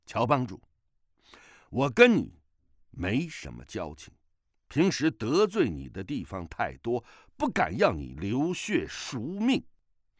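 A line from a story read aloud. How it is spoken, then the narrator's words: Loud. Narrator (Chinese): 大声地说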